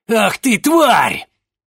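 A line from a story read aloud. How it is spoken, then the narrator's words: Loud bark. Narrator (Russian): Громко рявкнул он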